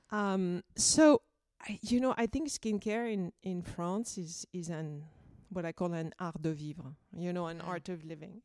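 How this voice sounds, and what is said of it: Thick Parisian French accent. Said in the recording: “this beautiful, thick Parisian accent”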